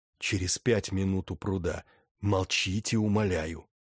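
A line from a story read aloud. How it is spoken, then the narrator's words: Smirking whisper. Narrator (Russian): Тот усмехнулся и шепнул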